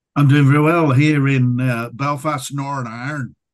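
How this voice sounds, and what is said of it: Put-on Northern Irish accent. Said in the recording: “It's just an accent ... Northern mm. Irish”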